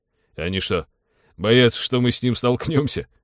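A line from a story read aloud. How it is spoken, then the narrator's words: Chuckling. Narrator (Russian): хохотнул Теодор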